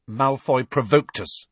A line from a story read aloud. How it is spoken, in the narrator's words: said Harry stiffly